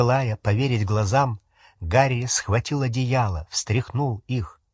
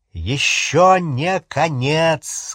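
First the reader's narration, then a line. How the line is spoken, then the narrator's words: Loud shout. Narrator (Russian): сказал Гарри и громко крикнул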